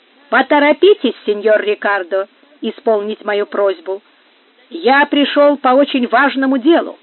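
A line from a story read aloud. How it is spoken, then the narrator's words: Loud, irritated. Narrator (Russian): нерешительность и молчание Рикардо вывели из терпения Пригонеро, и он громко и раздраженным голосом повторил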